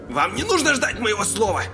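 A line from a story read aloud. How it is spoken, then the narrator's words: Indignant bark. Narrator (Russian): рявкнул врач, негодуя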